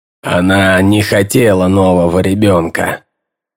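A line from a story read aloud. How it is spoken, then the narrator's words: Gloomy. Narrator (Russian): добавил он мрачно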